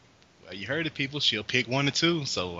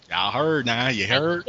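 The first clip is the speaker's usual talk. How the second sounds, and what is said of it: Southern country accent. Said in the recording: “like that southern accent that I got, because I'll be talking country sometimes, y'all.”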